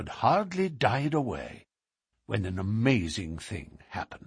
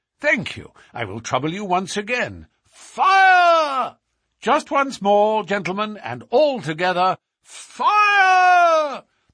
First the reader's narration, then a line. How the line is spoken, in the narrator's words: The shout must have rung over Norwood